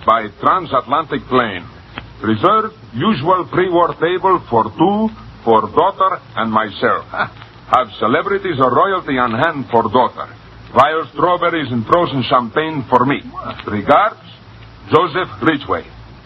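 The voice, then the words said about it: Reads in a put-on Russian accent. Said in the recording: “Read it with an accent, please... A Russian accent.”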